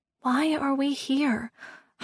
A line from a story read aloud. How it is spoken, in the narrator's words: I breathed, mesmerized